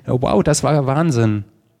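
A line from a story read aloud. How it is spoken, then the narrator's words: Called out. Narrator (German): rief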